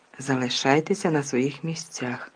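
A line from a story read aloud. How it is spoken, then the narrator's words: Hoarse command. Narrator (Ukrainian): хрипко звелів він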